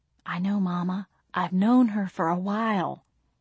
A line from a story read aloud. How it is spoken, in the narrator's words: I whispered